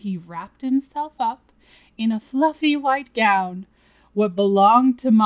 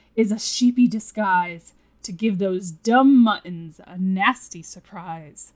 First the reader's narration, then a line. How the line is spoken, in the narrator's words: grumbled Lou